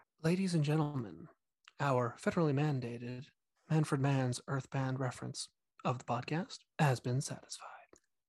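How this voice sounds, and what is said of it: NPR radio announcer voice. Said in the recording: “my rockin' NPR voice”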